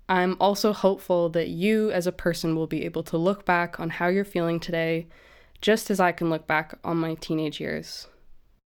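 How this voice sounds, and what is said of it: Canadian accent. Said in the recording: “my dopey Canadian accent”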